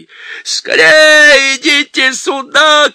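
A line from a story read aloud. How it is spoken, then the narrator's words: Joyful shouting. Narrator (Russian): кричал мистер Бобр, чуть не приплясывая от радости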